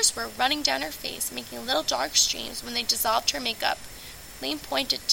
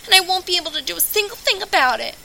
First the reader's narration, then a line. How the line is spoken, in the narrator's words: bawled